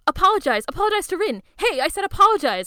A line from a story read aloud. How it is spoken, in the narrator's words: Haru shouts